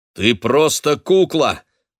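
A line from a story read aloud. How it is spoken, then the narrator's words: Loud. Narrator (Russian): громко сказал я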